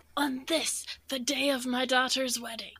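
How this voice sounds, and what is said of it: Poor Godfather impression. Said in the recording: “I know that was a terrible accent, but I don't know how to do a Godfather's accent”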